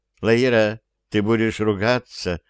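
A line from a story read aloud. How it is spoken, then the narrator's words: Serious young woman. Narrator (Russian): абсолютно серьезным тоном заявила девушка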